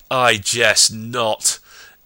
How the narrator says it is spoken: Ihor bellowed

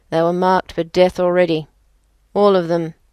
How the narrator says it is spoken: he said, his voice the deepest sound I had ever heard

